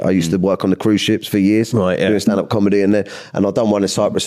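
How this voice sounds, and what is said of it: London accent. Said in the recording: “I got quite a London accent”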